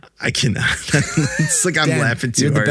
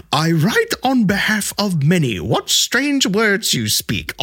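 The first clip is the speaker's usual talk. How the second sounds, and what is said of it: Put-on Old English accent. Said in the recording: “Read it in Old English then. That Old English accent.”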